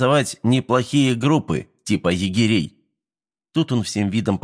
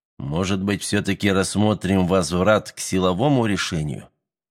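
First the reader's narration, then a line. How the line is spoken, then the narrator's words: Quiet suggestion. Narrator (Russian): тихо предложил Станислав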